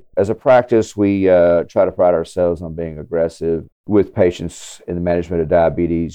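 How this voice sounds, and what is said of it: Southwest Louisiana accent. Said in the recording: “where is your accent from? ... My accent is, so I am in Southwest Louisiana.”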